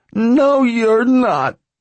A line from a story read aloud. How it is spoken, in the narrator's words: she cried